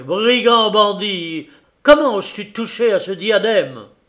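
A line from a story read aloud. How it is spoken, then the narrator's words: Shouted. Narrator (French): criai-je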